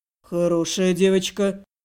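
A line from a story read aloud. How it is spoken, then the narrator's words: Wolfish growl. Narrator (Russian): рыкнул волк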